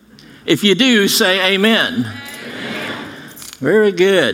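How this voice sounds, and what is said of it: Put-on Australian accent. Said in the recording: “That was my Australian accent”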